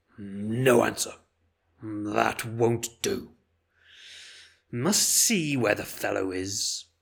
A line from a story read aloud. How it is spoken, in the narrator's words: the voice grumbled